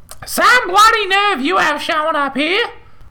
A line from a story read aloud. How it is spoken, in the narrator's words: She screeched